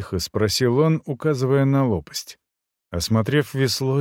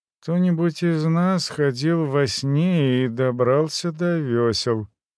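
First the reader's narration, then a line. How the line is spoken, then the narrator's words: Mumbled. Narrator (Russian): промямлил я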